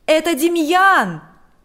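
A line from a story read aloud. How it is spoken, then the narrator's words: Shouting. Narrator (Russian): закричал он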